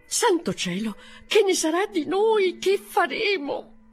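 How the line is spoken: Bitter lament, unfortunate women. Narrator (Italian): andavano amaramente esclamando le sventurate

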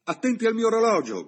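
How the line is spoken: Shout. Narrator (Italian): gridò il signor Bibb

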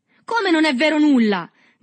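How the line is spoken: Shouted. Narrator (Italian): gridò il Tortima

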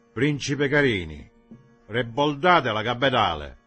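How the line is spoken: Shouted confidently. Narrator (Italian): egli si rivolse al capitano gridando con voce sicura

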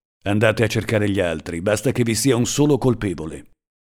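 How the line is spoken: Harsh voice. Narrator (Italian): disse loro con voce aspra

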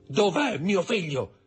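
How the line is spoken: Shouting. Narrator (Italian): gridando

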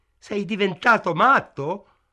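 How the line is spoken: Shouted. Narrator (Italian): gridò al negoziante

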